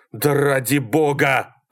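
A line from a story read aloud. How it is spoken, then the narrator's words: Breathless yelling. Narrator (Russian): орал Малькольм, глотая воздух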